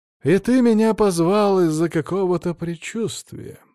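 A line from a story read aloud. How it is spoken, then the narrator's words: Laughing. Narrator (Russian): рассмеялся Крис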